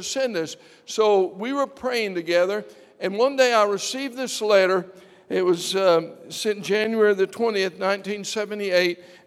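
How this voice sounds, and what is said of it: English accent. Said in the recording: “I was born there, and as you can tell by the accent”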